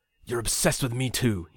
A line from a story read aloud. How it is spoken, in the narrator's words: he muttered